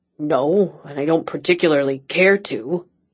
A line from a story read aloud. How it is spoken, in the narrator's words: he grumbled